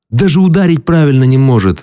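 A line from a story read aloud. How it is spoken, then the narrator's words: Moaning. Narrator (Russian): стонал Генлан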